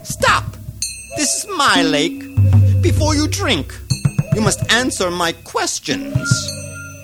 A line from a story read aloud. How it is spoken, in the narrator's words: the ogre from within called out